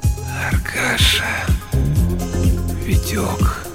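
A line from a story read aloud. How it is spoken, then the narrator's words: Rustling whisper. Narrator (Russian): шелестящим шепотом сказал он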